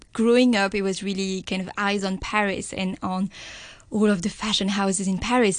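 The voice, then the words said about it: French accent. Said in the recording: “we can hear the French accent.”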